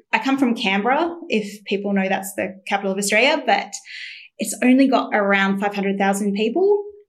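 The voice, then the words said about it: Mild Australian accent. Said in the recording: “You don't sound like you were born in the UK ... I was born in Australia. So although my accent isn't that strong”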